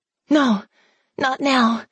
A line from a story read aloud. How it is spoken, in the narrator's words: she panted